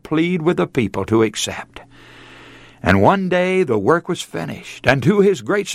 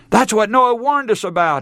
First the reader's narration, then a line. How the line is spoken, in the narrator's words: he cried